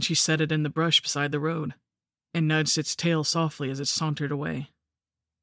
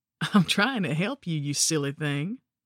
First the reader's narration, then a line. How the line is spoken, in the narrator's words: And she just laughed her beautiful horsey laugh and said